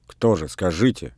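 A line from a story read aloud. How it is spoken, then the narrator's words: Angry question. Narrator (Russian): сердито спросила Марта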